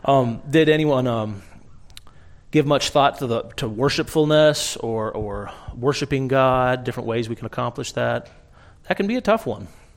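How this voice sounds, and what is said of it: Strained, failing voice. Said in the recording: “I'm trying to lose my voice here this morning.”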